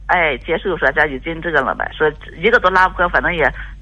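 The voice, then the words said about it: Slow speech with a regional accent. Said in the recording (Chinese): “女士有点说话稍微慢一点，有点口音”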